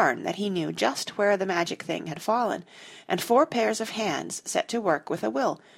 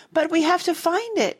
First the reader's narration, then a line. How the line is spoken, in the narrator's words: Jane cried, still digging desperately